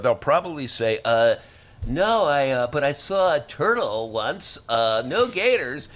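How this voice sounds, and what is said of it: Mimics a millennial hipster voice. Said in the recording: “my imitation of the millennial hipster”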